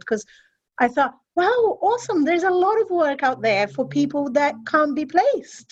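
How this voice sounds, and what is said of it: Mild, hard-to-place foreign English accent. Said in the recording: “as Brazilian as they would like me to sound ... someone with a stronger accent ... that has toned down my accent a little bit. To the English, I still sound foreign, but they can't really place me ... I have international English”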